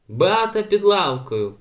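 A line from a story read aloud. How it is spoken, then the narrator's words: Loud shout, male. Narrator (Ukrainian): голосно крикнув він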